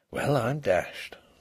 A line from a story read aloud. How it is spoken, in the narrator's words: He could only keep repeating very softly to himself